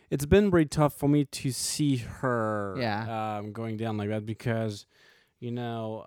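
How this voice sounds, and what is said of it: French accent. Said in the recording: “filmmaker from France. That's his accent. He's not from Alabama.”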